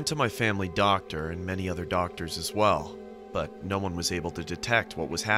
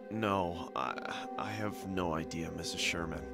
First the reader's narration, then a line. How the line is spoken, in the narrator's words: said in a feeble voice